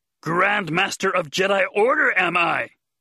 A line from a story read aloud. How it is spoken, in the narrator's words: He said loudly right in her ear